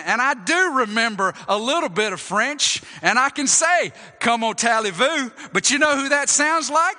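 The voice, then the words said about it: Southern US drawl, North Georgia. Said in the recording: “How do y'all know I'm from North Georgia? ... I've got an accent ... That sounds like a southern Frenchman ... it's got that drawl to it that's unmistakable”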